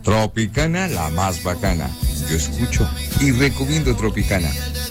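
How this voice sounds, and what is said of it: Radio announcer-style voice. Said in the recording (Spanish): “pura voz de locutor”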